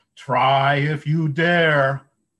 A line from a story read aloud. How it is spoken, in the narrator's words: the biggest goat bellowed right back